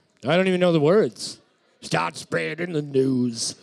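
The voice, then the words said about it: Sung New York accent. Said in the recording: “It's a New York accent. ... That's really good.”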